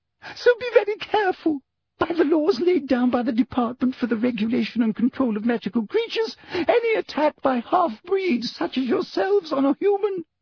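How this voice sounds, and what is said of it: Very high-pitched frightened woman's voice. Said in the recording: “in an even higher voice”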